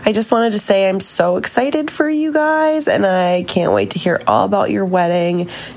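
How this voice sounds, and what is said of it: Sick, congested-sounding voice. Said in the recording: “I sound like a freak because I'm sick.”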